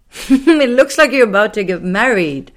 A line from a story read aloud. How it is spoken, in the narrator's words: Bunky laughed